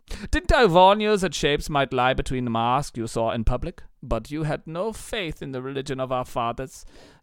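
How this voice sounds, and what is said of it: Camp storyteller voice, hard-to-place accent. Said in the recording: “very laborious, long storytelling and hard-to-place accent ... this camp”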